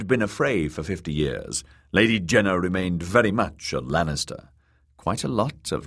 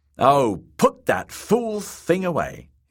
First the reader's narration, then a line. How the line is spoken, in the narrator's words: wife snapped